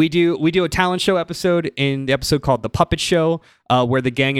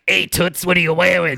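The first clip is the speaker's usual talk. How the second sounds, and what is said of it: 1930s Brooklyn ventriloquist doll voice. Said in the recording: “the same voice like that all ventriloquist dolls have ... in that 1930s Brooklyn accent”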